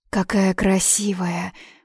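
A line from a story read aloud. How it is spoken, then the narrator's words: Admiring sigh. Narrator (Russian): восхищенно вздохнула Нина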